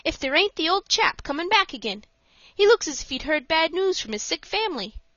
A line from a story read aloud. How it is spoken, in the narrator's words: he exclaimed suddenly